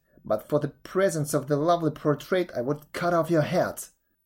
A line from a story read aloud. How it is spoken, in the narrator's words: cried the princess